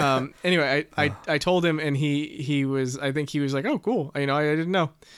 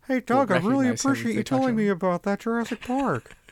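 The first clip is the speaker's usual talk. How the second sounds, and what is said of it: Impression of Owen Wilson. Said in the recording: “your dad, Owen Wilson ... It was a very good impression of him ... that impression of him that's so accurate ... it sounds exactly like him. So bad. Sounds like your dad, though”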